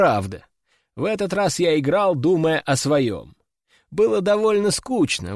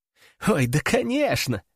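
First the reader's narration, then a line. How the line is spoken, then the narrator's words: Laughing. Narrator (Russian): рассмеялась Катя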